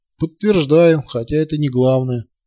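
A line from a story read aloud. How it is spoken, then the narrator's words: Amused grunt. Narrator (Russian): хмыкнул командир корабля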